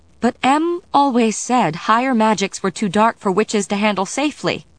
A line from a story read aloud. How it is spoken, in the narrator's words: Diana said, her voice rising again